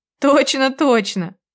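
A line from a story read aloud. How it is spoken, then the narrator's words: Laughing. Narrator (Russian): рассмеялась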